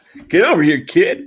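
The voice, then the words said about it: Imitates another person's voice, poorly. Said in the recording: “That's my worst impression ever.”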